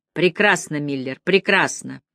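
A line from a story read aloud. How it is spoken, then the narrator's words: Satisfied muttering. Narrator (Russian): пробормотал Янки удовлетворенно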